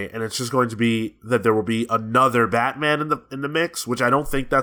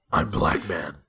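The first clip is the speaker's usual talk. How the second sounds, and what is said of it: Imitates a Batman voice. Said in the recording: “give me that in your best Kevin Conroy voice”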